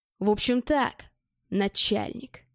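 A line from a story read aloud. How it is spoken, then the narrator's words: Fake hoarse voice. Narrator (Russian): с искусственной хрипотцой сказал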